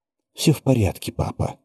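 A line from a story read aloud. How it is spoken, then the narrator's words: Soft reply. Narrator (Russian): мягко ответила она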